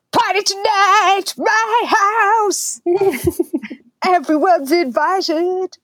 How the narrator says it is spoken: Amy takes center stage and bellows

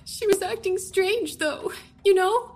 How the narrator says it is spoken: She sobbed

